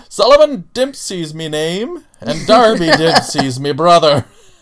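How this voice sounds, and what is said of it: Fake Irish accent. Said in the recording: “Good accent, good accent. ... it's the most fake Irish accent ever.”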